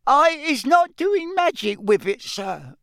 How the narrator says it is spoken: squealed Winky, tears streaming

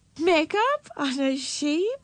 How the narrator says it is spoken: exclaimed a wise person and giggled

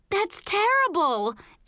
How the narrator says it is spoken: Erica cried

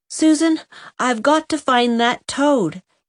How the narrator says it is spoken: said Walter desperately

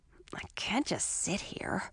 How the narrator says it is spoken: I muttered to myself

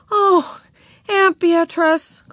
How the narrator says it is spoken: cried Beezus

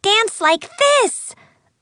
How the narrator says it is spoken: a fairy cried

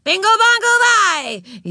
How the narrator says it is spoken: yelled the flag wavers

